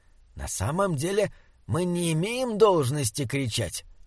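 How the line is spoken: Whisper. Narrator (Russian): прошептал он удивленному Саймону

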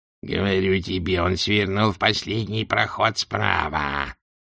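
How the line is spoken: Grating hiss. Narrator (Russian): прошипел Кринг, голосом похожим на скрежет железа о камень

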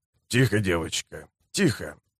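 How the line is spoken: Hoarse fatherly mutter. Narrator (Russian): Нага отечески хрипло пробормотал

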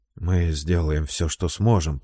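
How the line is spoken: Muttering. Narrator (Russian): пробормотал Келлан

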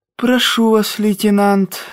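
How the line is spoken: High, unctuous, ingratiating voice. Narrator (Russian): сказал высоким елейным голосом полковник Баренц, вкрадчивый начальник контрразведки

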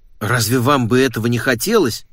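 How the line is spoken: Exclaiming. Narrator (Russian): воскликнул он

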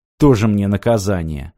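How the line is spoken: Sighing. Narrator (Russian): вздохнул Мартин

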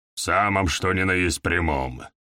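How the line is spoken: Impatient grumbling. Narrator (Russian): проворчал Изыск, явно намекая, что терпение его на исходе

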